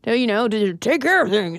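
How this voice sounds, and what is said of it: Angry man voice. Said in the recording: “That's my impression of an angry man”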